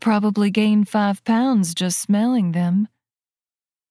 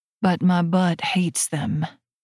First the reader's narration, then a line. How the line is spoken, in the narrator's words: she sighs